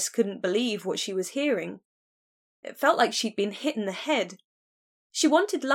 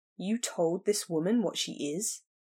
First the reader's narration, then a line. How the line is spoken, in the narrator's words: said Griffin, his voice low